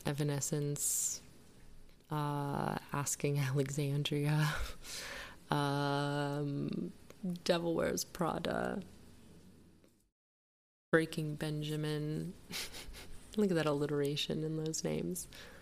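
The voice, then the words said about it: Soft, whispery, soothing ASMR-like voice. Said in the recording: “like you're whispering ... it sounds like you're in your ASMR channel. You're very soothing right now. ... you're relaxing me.”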